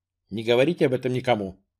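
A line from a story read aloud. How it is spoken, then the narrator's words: Hurried. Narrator (Russian): торопливо сказал маршал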